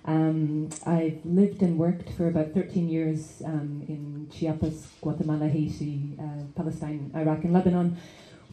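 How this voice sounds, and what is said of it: Hard-to-place mixed accent. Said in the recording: “hence the difficult to situate accent.”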